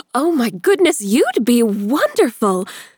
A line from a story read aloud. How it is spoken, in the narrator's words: Amelia exclaimed